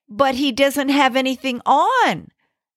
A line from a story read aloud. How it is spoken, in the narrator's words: cried a little child